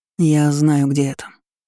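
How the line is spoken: Muffled, hollow voice. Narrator (Russian): глухо произнёс Артём

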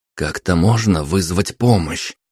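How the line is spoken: Whisper, growing angry. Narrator (Russian): прошептал, начиная сердиться

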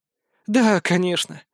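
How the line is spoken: Slightly saddened agreement. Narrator (Russian): слегка погрустневшим голосом согласилась Голицына

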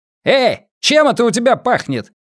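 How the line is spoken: Barking policeman. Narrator (Russian): гаркнул полицейский

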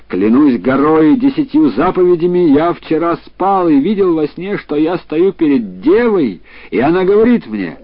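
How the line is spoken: Exclaiming. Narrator (Russian): когда еврей увидал ее, он нашел ее прекрасной и воскликнул

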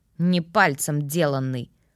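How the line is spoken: Snorting. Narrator (Russian): фыркнул ведьмак

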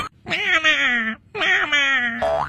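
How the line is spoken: Loud desperate shout. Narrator (Chinese): 情急之下这只壁虎一把就抱住了鳄鱼的前腿，大声喊道

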